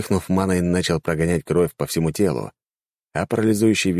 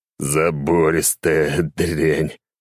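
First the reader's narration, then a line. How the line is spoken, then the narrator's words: Groaning. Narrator (Russian): простонал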